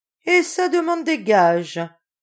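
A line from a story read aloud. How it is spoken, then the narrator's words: Sneering. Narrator (French): ricana mademoiselle Solange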